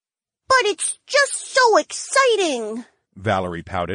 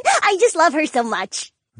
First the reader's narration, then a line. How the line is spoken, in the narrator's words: the feline woman giggled